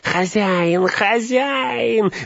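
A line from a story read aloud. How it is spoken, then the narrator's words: Hoarse wheeze. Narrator (Russian): засипел он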